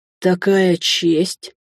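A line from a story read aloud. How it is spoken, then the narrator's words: Sighing man. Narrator (Russian): мужчина вздохнул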